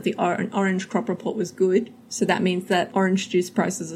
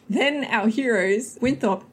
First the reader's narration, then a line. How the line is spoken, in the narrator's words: he shouts this